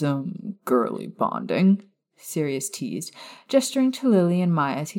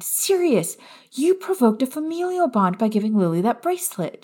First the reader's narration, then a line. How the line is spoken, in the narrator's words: she said excitedly